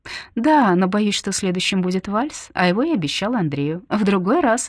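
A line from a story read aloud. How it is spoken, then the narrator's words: Cheerful. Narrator (Russian): весело произносит она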